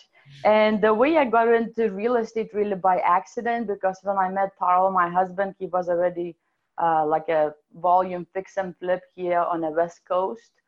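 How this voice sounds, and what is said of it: Eastern European Russian-sounding accent. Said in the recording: “from Lithuania... my amazing accent is actually European / Russian, whatever”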